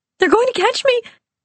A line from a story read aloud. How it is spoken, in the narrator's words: cried, my mind lost to fear